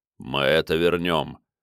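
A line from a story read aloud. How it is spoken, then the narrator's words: Deep bass voice. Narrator (Russian): пробасил паладин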